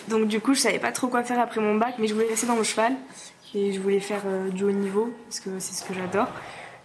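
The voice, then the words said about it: Slight southwestern French accent. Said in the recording (French): “T'as un petit accent entre nous, d'originaire du sud de la France ... sud-ouest”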